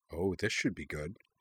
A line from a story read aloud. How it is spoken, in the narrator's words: Jing murmured